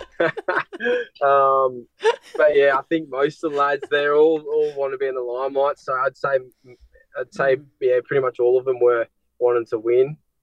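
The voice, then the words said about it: Noticeable regional accent. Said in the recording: “find my it hard to understand my accent”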